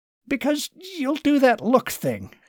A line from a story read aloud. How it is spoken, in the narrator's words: he blurted